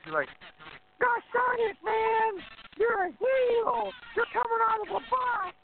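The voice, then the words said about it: Imitates another person's voice. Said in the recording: “great Jim Cornette impression.”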